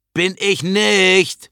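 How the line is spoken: Voice calling. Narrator (German): ruft die Stimme

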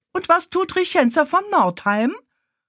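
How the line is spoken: Loud indignant retort. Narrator (German): konterte Eilika genauso laut und kaum weniger empört

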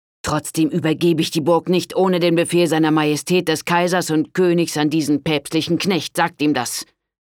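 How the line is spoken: Angry shout. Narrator (German): rief Richard wütend

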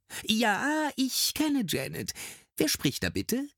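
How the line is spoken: Man, agitated, regaining composure. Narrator (German): Die Stimme des Mannes klingt jetzt ganz aufgeregt, dann versucht er sich wieder in den Griff zu bekommen

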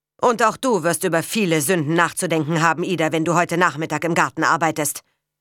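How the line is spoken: Stern. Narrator (German): sagte streng

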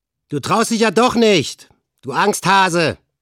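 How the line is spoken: Leader calling out. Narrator (German): rief Olaf, ihr Anführer

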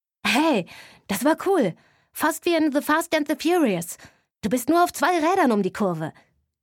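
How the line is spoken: Excited shout. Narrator (German): rief mein großer Bruder Mats begeistert

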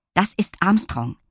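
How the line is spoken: Firm explanation. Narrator (German): erklärte Lilli Zorro und seinem Rudel mit fester Stimme

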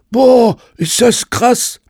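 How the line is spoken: Panting. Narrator (German): keuchte Ben Lorenzo

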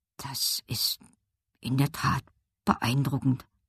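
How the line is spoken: Murmuring. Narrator (German): murmelte Slavika

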